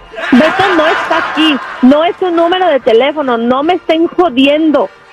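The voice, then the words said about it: Man faking a woman's voice. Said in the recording (Spanish): “voz de mujer”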